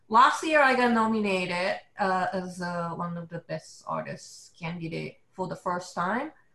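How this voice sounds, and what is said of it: Japanese-accented English. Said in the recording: “as you can tell from my accent,⟧ I'm a Japanese illustrator”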